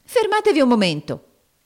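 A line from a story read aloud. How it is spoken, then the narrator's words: Exclaimed. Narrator (Italian): esclamò Nicola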